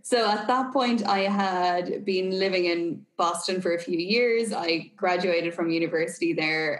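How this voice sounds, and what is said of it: Irish accent. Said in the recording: “my accent ... I am obviously Irish”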